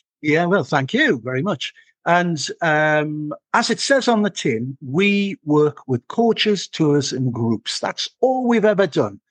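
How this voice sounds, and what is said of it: Northeast English accent. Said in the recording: “As you can probably tell from my voice, I am from the northeast of England”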